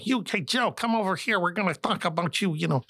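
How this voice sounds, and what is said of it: Imitates a thick Chicago accent. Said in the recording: “I'm from Chicago all my life, and here's Ed. Ed makes me sound like I'm from London because his accent is so”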